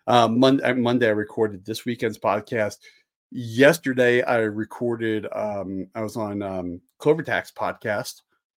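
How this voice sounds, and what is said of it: Hoarse, strained voice. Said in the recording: “I lost my voice over the weekend”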